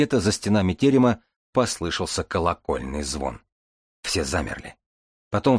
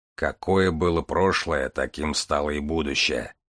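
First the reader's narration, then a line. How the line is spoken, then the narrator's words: Grumbling. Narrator (Russian): проворчал Железовский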